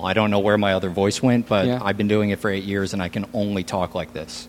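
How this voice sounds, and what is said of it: Polished radio announcer voice. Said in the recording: “I adapted a radio voice. I don't sound like this at all.”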